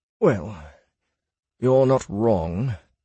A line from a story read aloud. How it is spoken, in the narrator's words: Silas answered wearily